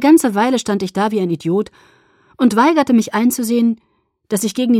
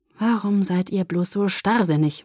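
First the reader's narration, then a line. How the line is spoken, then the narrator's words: Murmured. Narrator (German): murmelte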